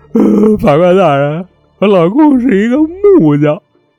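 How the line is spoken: Crying. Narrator (Chinese): 就哭的这位啊，就说了

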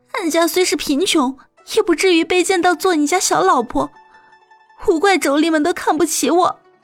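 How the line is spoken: Crying. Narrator (Chinese): 阿美哭泣着说

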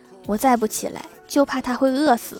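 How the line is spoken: Old man sighing. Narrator (Chinese): 老人长叹了一口气说

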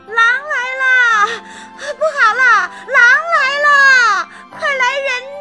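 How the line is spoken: Feigned panic, loud shouting. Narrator (Chinese): 装出惊慌失措的样子，大声叫喊

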